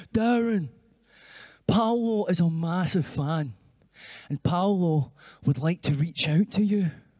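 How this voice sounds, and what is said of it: Middle-class industry person voice. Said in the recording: “this is my impression of a kind of middle-class, faceless industry person”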